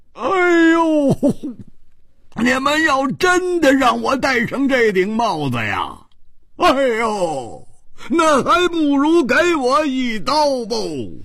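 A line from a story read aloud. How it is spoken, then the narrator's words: Loud cry. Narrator (Chinese): 大声地叫着说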